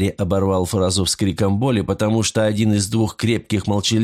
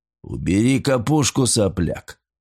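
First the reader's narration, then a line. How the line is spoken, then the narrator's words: Booming rumble. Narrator (Russian): прогудел Громила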